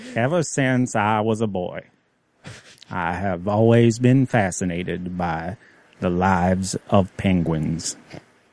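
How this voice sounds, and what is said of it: Morgan Freeman impression. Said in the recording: “You can start doing a Morgan Freeman impression ... That's obviously pretty fucking good.”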